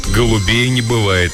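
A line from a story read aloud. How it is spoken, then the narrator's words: Gloomy joke. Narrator (Russian): мрачно пошутил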